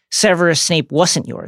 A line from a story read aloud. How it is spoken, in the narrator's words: Harry says